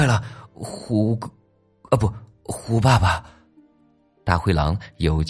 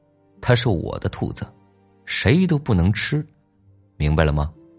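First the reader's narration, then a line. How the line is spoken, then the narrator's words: Calm, flat. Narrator (Chinese): 小老虎 淡淡的说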